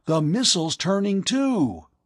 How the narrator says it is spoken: Hank cried

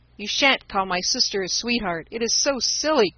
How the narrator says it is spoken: cried Demi, in a way that made Jack laugh

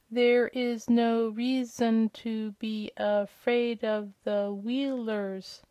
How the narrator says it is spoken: said, the words coming more slowly than before

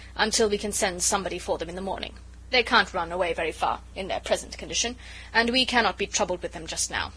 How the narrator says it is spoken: he added roughly

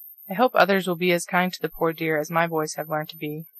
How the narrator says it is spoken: said Mrs

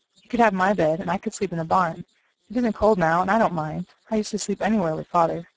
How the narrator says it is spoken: said Nat eagerly

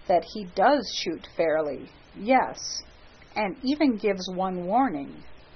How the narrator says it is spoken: said Hastings quietly

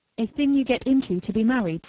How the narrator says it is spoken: said Jane

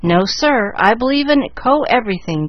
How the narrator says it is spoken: cried Chick, a mild youth

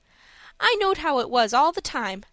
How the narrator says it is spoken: said Dick

